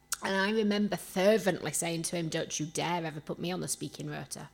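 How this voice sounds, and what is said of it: Yorkshire accent. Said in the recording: “I get mocked for my accent everywhere I go. ... I cannot shake off the Yorkshire accent.”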